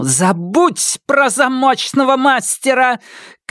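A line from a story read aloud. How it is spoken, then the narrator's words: Shouting in someone's face. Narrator (Russian): крикнула Сизин ему в лицо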